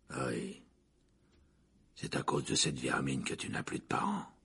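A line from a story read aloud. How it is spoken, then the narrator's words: Growl. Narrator (French): gronda Black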